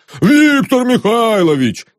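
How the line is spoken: Groaning together. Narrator (Russian): застонали все

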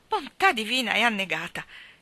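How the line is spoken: Exclaiming. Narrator (Italian): esclamò Mrs

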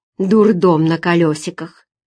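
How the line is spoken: Displeased grumble. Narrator (Russian): недовольно, проворчала Нина

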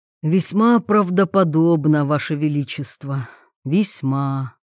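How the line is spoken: Chancellor sighing heavily. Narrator (Russian): тяжко вздохнул канцлер

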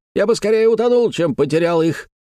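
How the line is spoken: Sharp interruption. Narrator (Russian): резко прервал его Пьер Серван Мало

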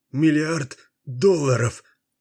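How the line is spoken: Sobbing. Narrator (Russian): продолжал всхлипывать Магун

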